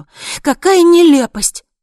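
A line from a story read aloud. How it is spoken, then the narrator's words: Exclamation. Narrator (Russian): воскликнула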